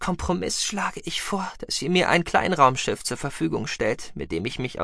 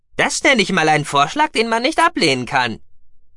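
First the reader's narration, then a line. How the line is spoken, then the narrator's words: Called out. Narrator (German): rief Gookie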